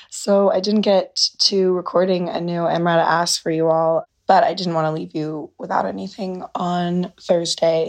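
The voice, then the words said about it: Hoarse, partly lost voice. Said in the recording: “As you can probably tell, I lost my voice. It's actually sounding a lot better today”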